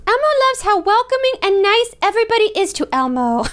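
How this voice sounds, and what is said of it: Elmo character voice. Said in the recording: “in an Elmo voice”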